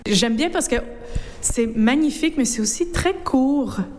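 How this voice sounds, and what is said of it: North American French accent. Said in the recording (French): “à votre accent, que vous êtes une de nos cousines outre-Atlantique”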